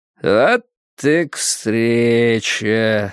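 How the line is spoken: Calm drawl. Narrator (Russian): спокойно протянул Уиттекер

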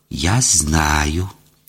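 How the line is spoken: Proud hiss. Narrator (Russian): гордо прошипела

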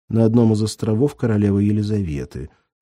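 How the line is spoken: Plain. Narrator (Russian): сказала женщина

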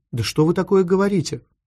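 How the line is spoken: Confused question. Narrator (Russian): Пыталась вникнуть англичанка, растерянно

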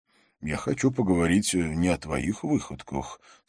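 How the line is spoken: Calm. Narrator (Russian): спокойно ответил Джонатан

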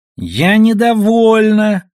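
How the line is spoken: Squeaky spoiled-child voice. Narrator (Russian): объявила Душелов писклявым голосом избалованного ребенка

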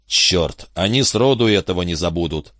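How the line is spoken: Plain. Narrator (Russian): ответил Каммингс

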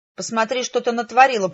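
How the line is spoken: Angry growl. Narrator (Russian): прорычал он

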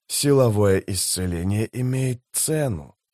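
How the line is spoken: Whisper. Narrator (Russian): прошептал престол тени

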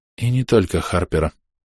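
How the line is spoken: Quiet addition. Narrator (Russian): тихо добавляет Сомер

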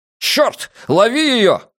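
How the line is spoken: Yelling. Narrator (Russian): заорал Трэвису Пратт

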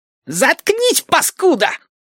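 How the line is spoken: Shrill shriek. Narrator (Russian): Взвизгнул Мухобой

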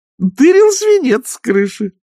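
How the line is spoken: Joyful announcement. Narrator (Russian): радостно сообщила нянюшка

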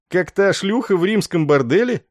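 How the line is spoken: Laughing question. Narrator (Russian): рассмеявшись, спросил Есарин

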